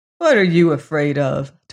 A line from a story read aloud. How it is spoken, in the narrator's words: Tolliver scoffed